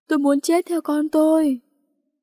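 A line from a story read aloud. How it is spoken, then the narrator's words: Wailing scream. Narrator (Vietnamese): Bà Tư gào lên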